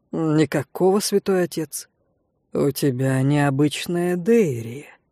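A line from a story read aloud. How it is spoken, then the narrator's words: Thoughtful drawl. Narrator (Russian): задумчиво протянул он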